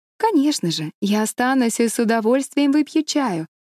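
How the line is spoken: Cheerful reply. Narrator (Russian): весело ответила Энн

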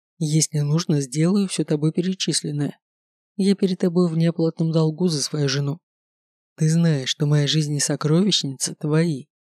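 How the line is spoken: Calm declaration, dragon king. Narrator (Russian): спокойно заявил король, который дракон

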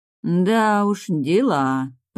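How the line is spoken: Drawn out. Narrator (Russian): протянула подруга

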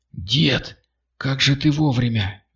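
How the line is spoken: Breathless exhale. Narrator (Russian): выдохнул он

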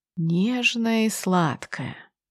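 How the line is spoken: Quiet. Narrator (Russian): тихо произносит Соколовский

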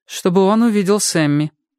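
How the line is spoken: Added in impassive voice, female. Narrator (Russian): добавила Дебора все тем же бесстрастным голосом

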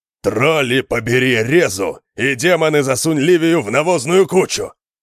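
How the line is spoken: Growling. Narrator (Russian): От рычания Конана

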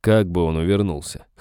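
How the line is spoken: Snort. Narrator (Russian): хмыкнул

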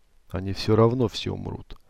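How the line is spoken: Very quiet. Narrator (Russian): очень тихо сказала она

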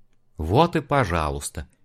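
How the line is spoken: Sigh. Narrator (Russian): вздохнул Олег

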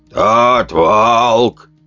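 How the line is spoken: Creaky elderly voice. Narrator (Russian): проскрипел старейшина

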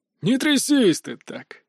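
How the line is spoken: Short laugh, gang member. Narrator (Russian): хохотнул один из членов банды

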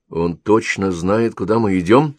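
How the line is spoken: Plain. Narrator (Russian): спросил Петков

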